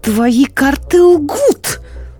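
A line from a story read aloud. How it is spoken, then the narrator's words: Exclaimed. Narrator (Russian): воскликнула она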